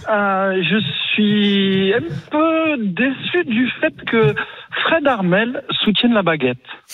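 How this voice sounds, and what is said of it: Regional southern French accent. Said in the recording (French): “on a le petit accent”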